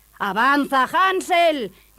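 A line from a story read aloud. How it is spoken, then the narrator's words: Stepmother shouting. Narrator (Spanish): gritaba su madrastra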